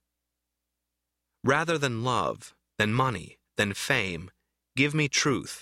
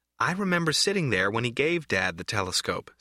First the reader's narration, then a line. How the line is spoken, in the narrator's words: says Corrine